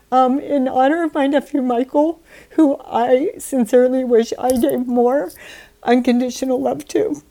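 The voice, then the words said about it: Teary, emotional voice. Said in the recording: “getting teary-eyed”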